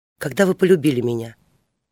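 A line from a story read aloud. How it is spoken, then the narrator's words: Whispered question. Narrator (Russian): спросила она шепотом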